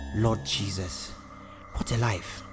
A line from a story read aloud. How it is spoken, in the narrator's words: George sighed